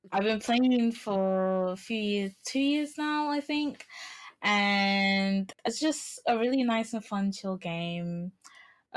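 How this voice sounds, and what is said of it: English accent. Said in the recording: “I live in England, you could probably tell by the accent”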